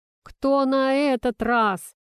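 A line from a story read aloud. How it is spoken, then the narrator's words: Groaning. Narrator (Russian): простонал Игорь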